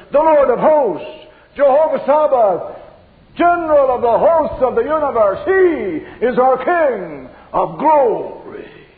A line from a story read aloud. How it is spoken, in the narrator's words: the answer thunders